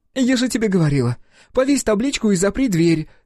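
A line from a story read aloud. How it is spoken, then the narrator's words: Somewhat hysterical exclamation. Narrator (Russian): с некоторой истерикой воскликнула Вера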